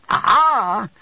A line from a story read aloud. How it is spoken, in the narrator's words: cried the little creature